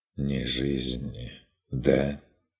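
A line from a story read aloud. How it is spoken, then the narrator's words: Barely audible question. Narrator (Russian): переспросил Арвид, все так же едва слышно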